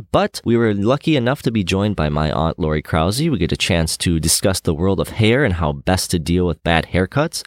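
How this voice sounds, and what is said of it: Rough, sick-sounding voice. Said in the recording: “I was nearing the end of a nasty flu, so my voice is going to sound a bit like death in this episode”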